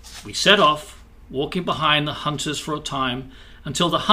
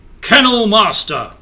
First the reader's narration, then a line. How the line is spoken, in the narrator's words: the king's voice boomed